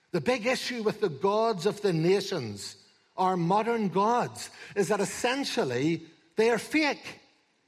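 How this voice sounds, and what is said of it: Ulster accent. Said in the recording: “my Ulster accent”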